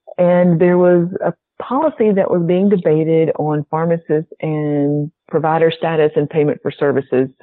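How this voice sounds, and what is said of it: Southern American accent. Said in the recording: “it was probably my southern accent”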